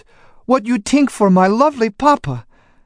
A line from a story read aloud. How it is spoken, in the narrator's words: she sobbed